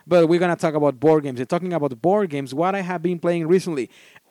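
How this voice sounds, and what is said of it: Non-native English accent. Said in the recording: “especially as my second language ... my awful accent”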